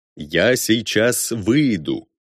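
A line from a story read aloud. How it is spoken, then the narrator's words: Slow, muffled against glass. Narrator (Russian): Медленно, прижавшись губами к стеклу, произнес Арно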